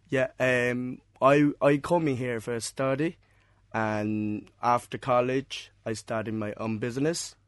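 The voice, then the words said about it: Non-Irish foreign accent. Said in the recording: “From your accent, I'm presuming that people are going to pick up that you're not from Cork originally.”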